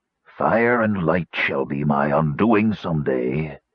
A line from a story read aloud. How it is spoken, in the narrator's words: rasped the robed figure